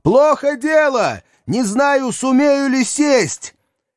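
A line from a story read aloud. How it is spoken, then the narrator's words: Shouted over rotor noise. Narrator (Russian): Перекрывая шум винтов, пилот прокричал в ухо Максу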